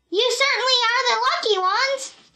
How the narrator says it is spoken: she shouted to Jim and Buck

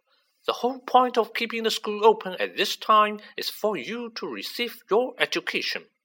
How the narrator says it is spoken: she said sternly

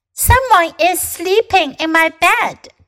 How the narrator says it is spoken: cried Baby Bear

